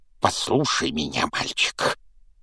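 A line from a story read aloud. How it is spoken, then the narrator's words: Growl. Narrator (Russian): прорычал дядя Вернон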